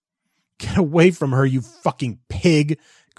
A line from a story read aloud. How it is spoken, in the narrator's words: Christopher sobbed